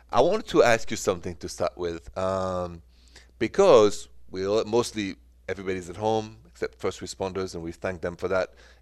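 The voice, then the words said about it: French-accented English. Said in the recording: “The accent is French”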